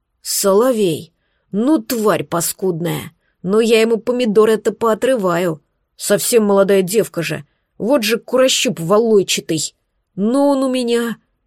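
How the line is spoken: Angry growl. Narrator (Russian): Он прорычал гневно

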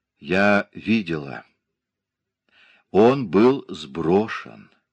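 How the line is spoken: Patient, slow, after sigh. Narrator (Russian): Глубоко вздохнув, терпеливо и медленно повторила

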